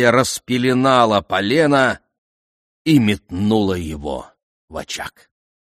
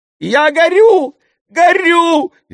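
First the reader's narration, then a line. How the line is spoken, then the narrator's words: Shrieking. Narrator (Russian): визжал он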